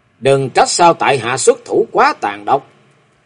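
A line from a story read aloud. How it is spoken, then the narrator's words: Loud, out of patience. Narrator (Vietnamese): Ngọc Long, một là nhịn không thể nhịn, hai là chẳng dung cho chàng nhân nhượng nữa, quyết định ở trong lòng rồi to tiếng nói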